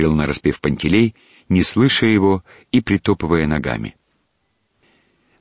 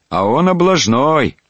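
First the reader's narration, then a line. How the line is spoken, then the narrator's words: Shouted. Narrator (Russian): крикнул Кирюха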